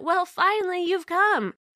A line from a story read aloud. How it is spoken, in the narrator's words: my crazy cousin smiled happily and said